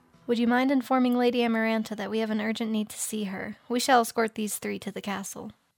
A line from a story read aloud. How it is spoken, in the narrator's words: calmly asking